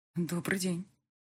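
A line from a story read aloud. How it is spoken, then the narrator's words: Strained, shaken, barely audible. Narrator (Russian): еле выдавила из себя, чувствуя, как краски схлынули с лица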